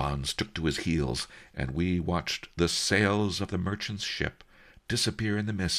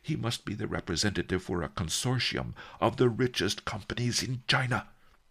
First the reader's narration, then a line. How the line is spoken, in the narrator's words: Master Li gasped